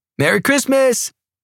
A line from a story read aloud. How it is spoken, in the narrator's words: Pike yelled in the background